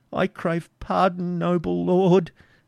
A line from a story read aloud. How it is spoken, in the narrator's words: said Isaac timidly